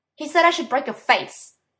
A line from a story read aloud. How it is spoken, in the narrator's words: Dean snapped